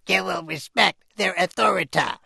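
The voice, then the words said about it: Rough Cartman impression. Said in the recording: “That's Cartman. ... my imitation? ... It needs work. It definitely needs work, to be honest.”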